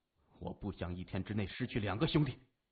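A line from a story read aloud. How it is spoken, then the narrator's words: Low deep voice. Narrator (Chinese): 沉声说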